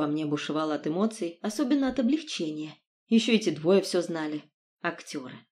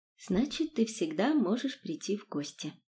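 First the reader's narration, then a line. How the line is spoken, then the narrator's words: Quiet, close intimate reply. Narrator (Russian): отвечала я тихо, потому что его лицо было совсем близко с моим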